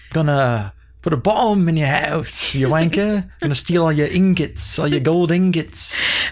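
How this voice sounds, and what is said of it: Fake British accent. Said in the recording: “faking ... the British accent.”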